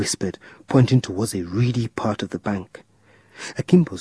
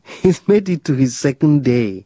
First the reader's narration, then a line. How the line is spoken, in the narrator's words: John said, laughing